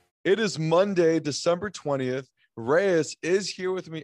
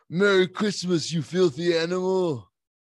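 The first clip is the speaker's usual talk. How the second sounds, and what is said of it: Put-on movie accent, poorly done. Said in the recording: “my best movie accent that I can do ... That is just awful ... my accent”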